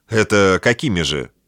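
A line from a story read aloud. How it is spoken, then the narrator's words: Cold, emotionless question. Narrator (Russian): холодно, без малейшей эмоции спросила Антиопа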